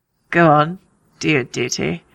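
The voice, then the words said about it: Stannis impression, Stephen Dillane, contemptuous. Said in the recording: “my Stephen DeLay impression ... there's like just such a shittiness to the way Stannis says it”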